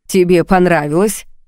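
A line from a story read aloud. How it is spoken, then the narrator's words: Mocking question. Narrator (Russian): спросил насмешливо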